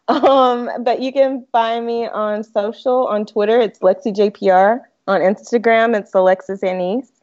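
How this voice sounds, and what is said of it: Southern US accent. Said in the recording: “I was born and raised in the South. I'm from Mississippi. Hence the accent”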